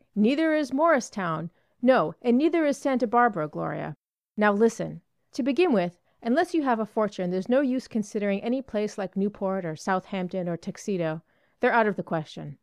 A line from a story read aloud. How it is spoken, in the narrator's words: cried Dick